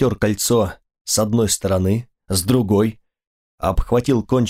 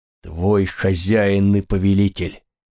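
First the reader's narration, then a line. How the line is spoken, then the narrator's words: Commanding voice. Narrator (Russian): сказал я как можно более властным голосом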